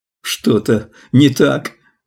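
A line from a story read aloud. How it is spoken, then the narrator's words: Sobbing question. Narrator (Russian): по-прежнему всхлипывая, спросил коротышка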